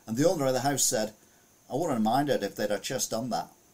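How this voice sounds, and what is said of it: Put-on Australian accent. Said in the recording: “It's my Australian accent again.”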